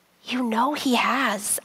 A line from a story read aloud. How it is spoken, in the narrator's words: I whispered